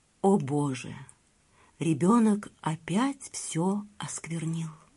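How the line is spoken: Barely audible. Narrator (Russian): Брахман еле слышно проговорил

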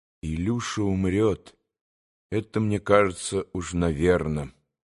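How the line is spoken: Sad reply. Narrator (Russian): грустно ответил Алеша

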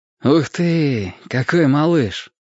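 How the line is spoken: Affectionate. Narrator (Russian): ласково сказал Ник

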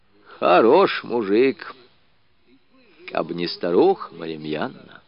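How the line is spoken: Heavy sigh, old woman. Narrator (Russian): бабушка Лукерья тяжело вздохнула и проговорила

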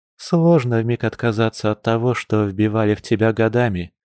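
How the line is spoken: Sad retort. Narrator (Russian): грустно парировала волчица

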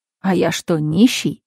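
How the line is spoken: Indignant voice. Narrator (Russian): проговорил Василий возмущенно

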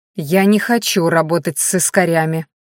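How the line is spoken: Snapped. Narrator (Russian): огрызнулась Майяри

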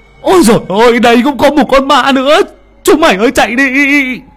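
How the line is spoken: Shriek. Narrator (Vietnamese): Thằng Hiếu rú lên

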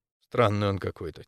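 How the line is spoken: Quiet. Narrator (Russian): тихо сказал я

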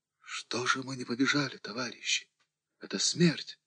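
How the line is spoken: Desperate whisper. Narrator (Russian): Кто-то прошептал в отчаянии

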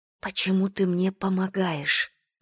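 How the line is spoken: Whispered. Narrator (Russian): прошептала она

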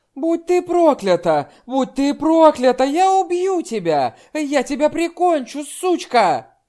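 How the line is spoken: Furious screaming at full lungs. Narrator (Russian): Винни сердито закричала во все легкие

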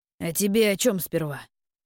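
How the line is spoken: Snorting reply. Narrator (Russian): хмыкнул тот в ответ

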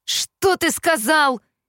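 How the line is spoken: Roared. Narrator (Russian): взревел Кит

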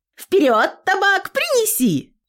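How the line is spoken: Daughter shouting. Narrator (Russian): крикнула дочь

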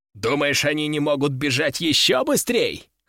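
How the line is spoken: Short laugh. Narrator (Russian): хохотнул он

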